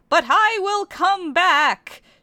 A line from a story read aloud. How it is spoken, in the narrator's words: she cried loudly into the sunset